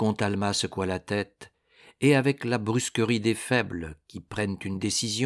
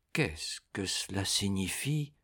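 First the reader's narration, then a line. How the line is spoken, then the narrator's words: Frightened murmuring count. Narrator (French): murmura le comte en pâlissant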